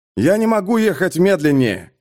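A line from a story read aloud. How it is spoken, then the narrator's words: Shouted reply. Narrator (Russian): крикнул в ответ Пейнтер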